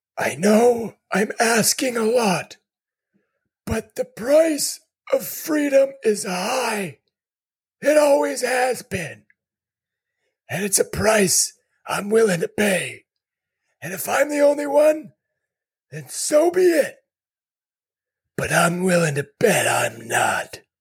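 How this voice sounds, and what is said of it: Old man voice. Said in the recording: “I'm going to do mine in old man voice”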